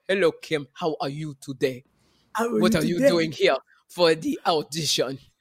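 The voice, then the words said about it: Attempted African accent. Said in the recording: “We all were trying to do an African accent. And Botswanian is very different.”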